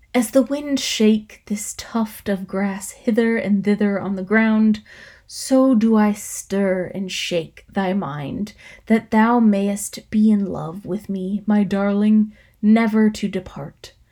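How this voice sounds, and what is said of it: Sensual, seductive reading voice. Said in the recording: “Let's see if I can do this in a sensual voice.”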